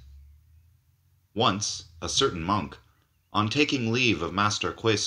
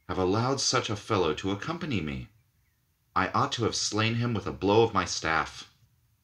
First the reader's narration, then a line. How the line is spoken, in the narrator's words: sighed the master